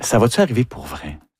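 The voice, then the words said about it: Whispering. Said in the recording (French): “On chuchote.”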